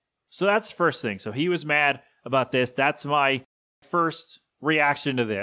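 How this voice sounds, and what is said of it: Usual voice. Nothing is said of it.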